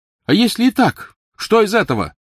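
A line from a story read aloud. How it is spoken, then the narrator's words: Loud reply. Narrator (Russian): громко ответил Невилл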